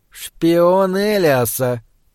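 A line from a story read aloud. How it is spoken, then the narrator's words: Hissing, lord. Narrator (Russian): прошипел один из северных лордов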